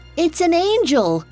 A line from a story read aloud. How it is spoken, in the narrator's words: someone cried out from the crowd